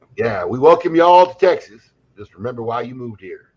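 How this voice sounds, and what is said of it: Put-on Texas accent, questionable quality. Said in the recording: “I don't know if that was even a good Texas accent. I think I might have just like insulted a bunch of Texans.”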